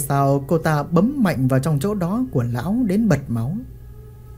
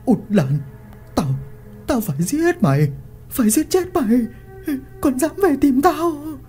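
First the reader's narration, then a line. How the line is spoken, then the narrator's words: Harsh, through gritted teeth. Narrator (Vietnamese): Lão vừa bóp vừa gằn giọng nói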